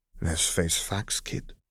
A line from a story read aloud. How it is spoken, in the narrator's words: she muttered ruefully